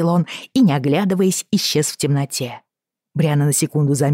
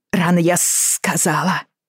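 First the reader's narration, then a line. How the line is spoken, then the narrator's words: Hissed through teeth. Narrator (Russian): прошипела она сквозь зубы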